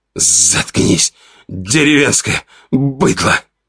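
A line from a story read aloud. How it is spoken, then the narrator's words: Hoarse, out of breath. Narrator (Russian): прохрипел Ваня, пытаясь отдышаться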